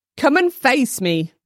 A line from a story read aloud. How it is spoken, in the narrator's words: Carl shouted